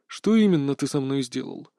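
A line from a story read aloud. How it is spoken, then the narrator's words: Calm question. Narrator (Russian): совершенно спокойно поинтересовался он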